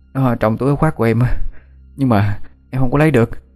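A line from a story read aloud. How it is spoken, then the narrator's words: Breathless panting child. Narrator (Vietnamese): Thằng bé thở hổn hển như muốn đứt hơi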